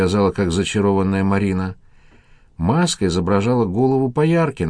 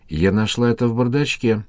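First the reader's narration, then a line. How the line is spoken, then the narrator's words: Trembling voice. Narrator (Russian): дрожащим голосом сказала Костандиле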